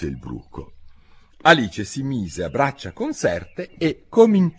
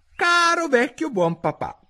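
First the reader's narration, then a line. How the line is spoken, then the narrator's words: Son shrieking. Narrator (Italian): strillò il figlio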